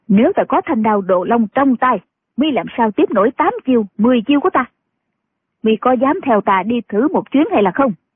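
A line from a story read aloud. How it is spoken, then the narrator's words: Angry old woman. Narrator (Vietnamese): Kim Hoa bà bà giận dữ nói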